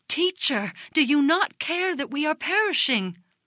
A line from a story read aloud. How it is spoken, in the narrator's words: In amazement they exclaimed